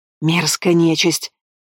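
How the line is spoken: Hissing. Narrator (Russian): зашипела Абигейль

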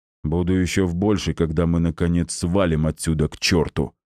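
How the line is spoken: Big man grumbling. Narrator (Russian): пробурчал здоровяк

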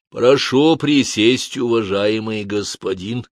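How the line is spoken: Low-voiced dwarf. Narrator (Russian): таким же, как его брат, и низким голосом сказал мне карлик

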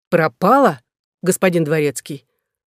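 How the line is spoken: Angry objection. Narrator (Russian): возразил сердито Паш

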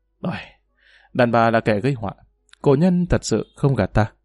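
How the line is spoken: Sighing lament. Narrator (Vietnamese): Triệu Phong Tử thở dài nói

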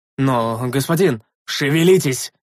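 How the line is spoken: Bark. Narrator (Russian): рявкнул я

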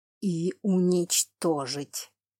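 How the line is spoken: Hissing. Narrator (Russian): прошипел Тейрен Флемур

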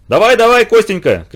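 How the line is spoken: Group shouting from a distance. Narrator (Russian): кричали с борта его товарищи

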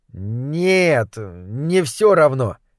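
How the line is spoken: Uncertain reply. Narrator (Russian): неуверенно отозвалась другая крыса

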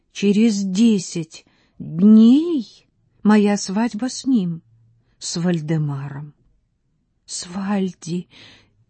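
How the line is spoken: Loud disbelieving repetition. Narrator (Russian): Это вдруг показалось ей столь невероятным, что она повторила громко

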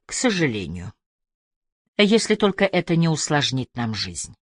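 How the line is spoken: Quiet. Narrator (Russian): тихо сказал Мартин Бек

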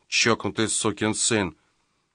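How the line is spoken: Muttering. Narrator (Russian): Он бормоча

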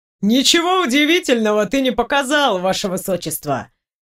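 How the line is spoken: Laughing. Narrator (Russian): Рассмеялся Лекс

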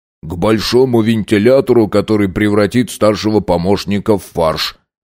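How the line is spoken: Grumbled. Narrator (Russian): проворчал Хиллари

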